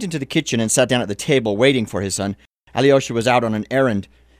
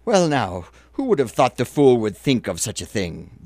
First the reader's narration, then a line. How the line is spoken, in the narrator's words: the old man exclaimed